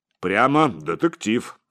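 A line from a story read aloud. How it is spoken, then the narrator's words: Skeptical snort. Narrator (Russian): сказал Высокий и скептически хмыкнул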